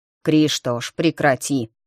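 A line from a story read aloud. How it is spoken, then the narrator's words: Through gritted teeth. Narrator (Russian): процедил родитель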